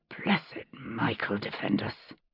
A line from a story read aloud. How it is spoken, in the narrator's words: Jamie muttered under his breath